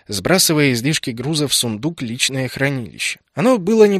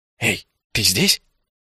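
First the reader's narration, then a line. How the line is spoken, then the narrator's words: Soft mouthed whisper. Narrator (Russian): тихо одними губами шепнул я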